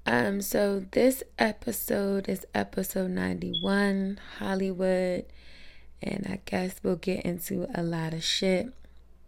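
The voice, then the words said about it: Sick, rough-sounding voice. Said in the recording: “Sorry for my voice. I'm getting a little sick underneath the weather”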